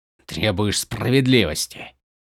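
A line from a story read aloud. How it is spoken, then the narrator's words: Growling. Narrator (Russian): прорычал он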